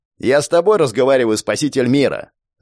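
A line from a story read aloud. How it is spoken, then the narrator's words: Bark right by ear. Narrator (Russian): Рявкнули у самого уха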